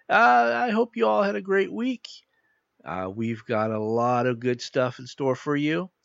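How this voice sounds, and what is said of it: Sick, under-the-weather voice. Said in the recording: “apologize for my voice. ... As you could probably tell, I'm a little under the weather”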